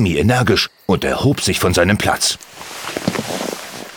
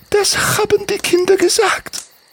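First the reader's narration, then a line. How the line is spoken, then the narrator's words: Starting to sob. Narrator (German): nickte Svetlani und begann zu schluchzen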